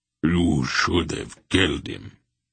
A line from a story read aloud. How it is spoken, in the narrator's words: Barak rumbled